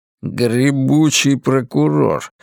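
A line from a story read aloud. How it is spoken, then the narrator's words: Grumbling mutter. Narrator (Russian): пробурчал Ларри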